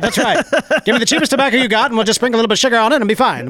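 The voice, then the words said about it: Put-on mid-Atlantic American accent. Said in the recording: “the best mid-Atlantic accent I've ever heard... I made fun of the American accent”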